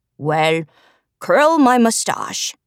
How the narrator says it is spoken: said in a deep voice

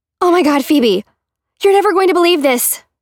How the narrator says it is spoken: Cora shouted

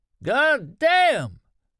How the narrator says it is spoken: Norm Bruett shouted, almost screamed

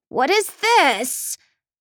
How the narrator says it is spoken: cries

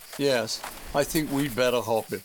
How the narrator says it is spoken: said Grandude

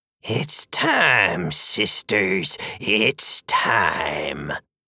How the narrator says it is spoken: the third witch intoned, like she was somehow better and witchier and closer to the spheres than the other two witches

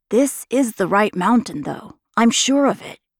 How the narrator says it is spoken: Ka said

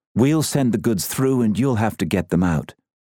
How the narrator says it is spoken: she said

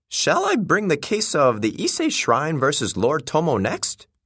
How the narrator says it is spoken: he asked eagerly

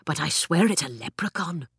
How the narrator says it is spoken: Jamie whispered

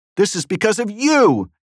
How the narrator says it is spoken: yelled Representative Dean Phillips of Minnesota from the gallery at Representative Paul Gosar

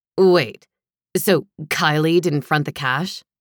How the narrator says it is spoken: Cam didn't bother disguising his sneer

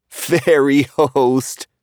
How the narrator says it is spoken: Paul laughed quietly

